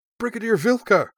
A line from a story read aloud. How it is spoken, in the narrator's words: cried Yoshka, her eyes huge